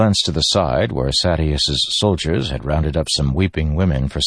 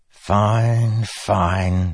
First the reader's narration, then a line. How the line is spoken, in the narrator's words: Sadeus said, sighing